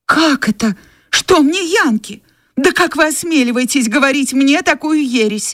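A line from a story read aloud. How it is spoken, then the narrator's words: Exclamation. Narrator (Russian): воскликнула Скарлетт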